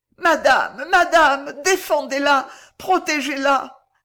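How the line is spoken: Choked voice. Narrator (French): d'une voix étranglée

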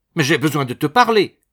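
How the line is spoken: Urgent exclamation. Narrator (French): s'écria Madame Barinck

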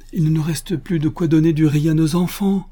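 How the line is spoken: Shouting. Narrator (French): cria à son tour Tirupati

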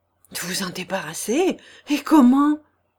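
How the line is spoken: Exclaimed. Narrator (French): s'écria Thibaut

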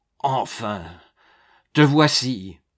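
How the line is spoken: Hoarse cry. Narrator (French): s'écria le banquier d'une voix rauque

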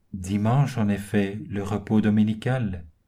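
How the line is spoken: Flat, choked voice. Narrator (French): d'une voix atone et étranglée

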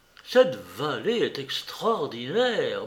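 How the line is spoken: Murmuring. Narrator (French): murmura-t-il

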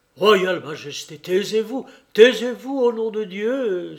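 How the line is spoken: Exclaiming. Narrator (French): s'écria Yankel

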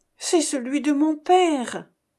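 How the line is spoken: Trembling voice. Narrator (French): répliqua Thésée d'une voix tremblante

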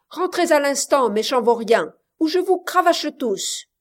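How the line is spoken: Thunderous shout. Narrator (French): leur cria-t-il d'une voix de tonnerre

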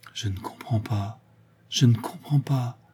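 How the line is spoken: Murmured. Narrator (French): murmura-t-elle

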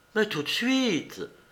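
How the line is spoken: Young woman's ardent exclamation. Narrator (French): s'écria fougueusement la jeune fille

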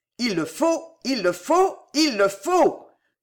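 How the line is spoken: Exclaimed. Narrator (French): s'écria-t-il

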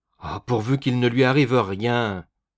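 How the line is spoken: Mother exclaiming. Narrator (French): s'écria la mère

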